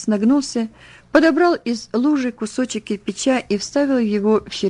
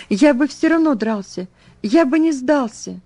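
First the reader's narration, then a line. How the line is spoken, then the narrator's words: Teen's tearful fervent exclamation. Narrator (Russian): Подросток лет 15 со слезами на глазах с жаром воскликнул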